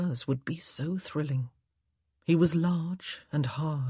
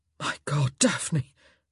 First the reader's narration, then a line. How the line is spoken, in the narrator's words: Simon gasped